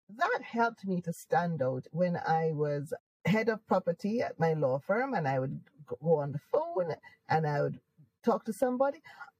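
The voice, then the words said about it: Jamaican accent. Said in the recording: “I am Jamaican. I don't want to lose my accent... Is that a Jamaican accent? Yes.”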